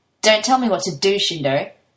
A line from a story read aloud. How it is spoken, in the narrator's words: Toya snaps, as he says it